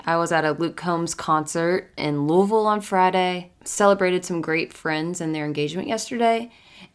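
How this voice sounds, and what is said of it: Slightly raspy voice. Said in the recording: “excuse my voice if it's a little more raspy ... just chanting, hollering”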